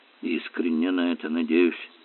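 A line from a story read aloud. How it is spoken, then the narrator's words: Mutter. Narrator (Russian): пробормотал Эллери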